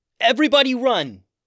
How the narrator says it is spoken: yelled Tatiana

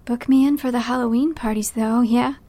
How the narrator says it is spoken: Beck sighs, her fake sympathy

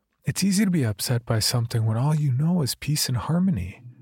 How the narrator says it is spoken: my mother said in a melodic voice

